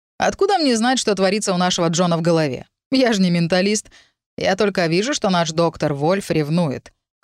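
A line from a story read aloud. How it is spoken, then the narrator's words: Snort. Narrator (Russian): хмыкнул Виктор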